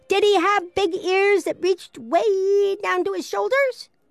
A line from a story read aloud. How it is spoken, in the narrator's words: Pippi shouted